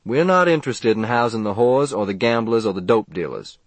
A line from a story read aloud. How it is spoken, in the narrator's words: he said